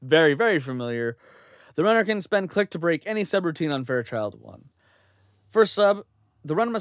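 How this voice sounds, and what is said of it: Usual voice. Nothing is said of it.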